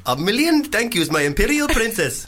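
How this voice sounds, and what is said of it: Put-on Indian accent. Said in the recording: “Indian. ... It's not so much the accent that's racist, is it?”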